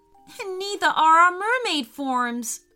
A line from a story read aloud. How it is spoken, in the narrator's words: cried Ellie, as they both looked on in horror